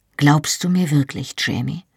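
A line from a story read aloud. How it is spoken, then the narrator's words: Sighing, rueful. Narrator (German): Er seufzte und lächelte reumütig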